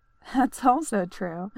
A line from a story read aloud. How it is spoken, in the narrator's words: she laughed